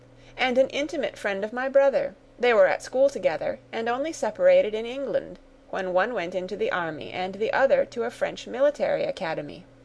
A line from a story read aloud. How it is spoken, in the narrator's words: cried the young lady